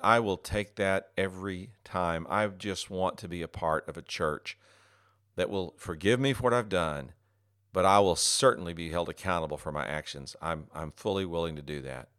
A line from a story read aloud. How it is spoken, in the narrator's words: He exhaled a sigh of relief and said